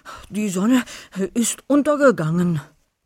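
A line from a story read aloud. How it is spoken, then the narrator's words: Panting. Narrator (German): keuchte Wolfi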